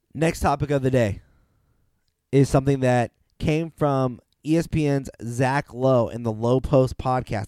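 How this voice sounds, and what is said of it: Slightly ill-sounding voice. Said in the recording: “my voice is a little, you know, out of it. I'm a little ill”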